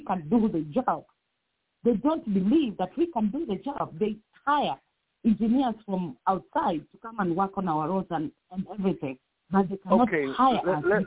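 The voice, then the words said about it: Strong accent, hard to understand. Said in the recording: “accent, which is beautiful ... It's kind of hard to understand ... speaks perfect English. It's just not the English that we speak.”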